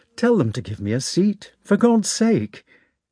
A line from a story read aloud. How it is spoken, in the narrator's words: He asked in a hesitating, piteous voice